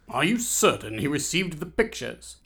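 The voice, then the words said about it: Man with British accent. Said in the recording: “Said a man with a British accent”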